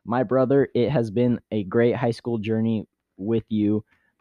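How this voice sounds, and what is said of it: Flat robotic monotone reading. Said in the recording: “Why you sound like a robot? ... Am I the only one who thinks you sound like a robot? ... Text to speech.”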